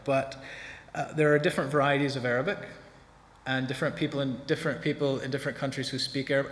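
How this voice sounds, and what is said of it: American English accent. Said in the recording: “I'm from the States. ... you can just about stand my accent”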